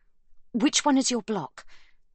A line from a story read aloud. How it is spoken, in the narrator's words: Sibby asks her sister urgently